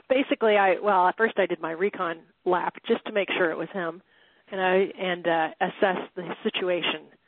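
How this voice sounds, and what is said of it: Voice sounding sick with a cold. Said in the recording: “I have a cold.”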